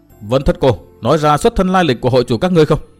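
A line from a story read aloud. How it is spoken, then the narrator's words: Shout. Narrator (Vietnamese): quát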